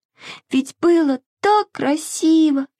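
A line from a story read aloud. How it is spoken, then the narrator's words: Sobbing. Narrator (Russian): всхлипывала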